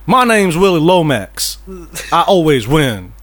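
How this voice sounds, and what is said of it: Put-on Southern US accent. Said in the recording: “What is this accent you're doing? There's like, this southern”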